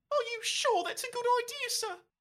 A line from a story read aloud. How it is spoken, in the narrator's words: He squeaks